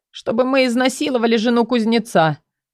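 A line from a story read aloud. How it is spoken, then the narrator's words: Embarrassed mumble. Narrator (Russian): промямлил он, покраснев еще ниже, опустив голову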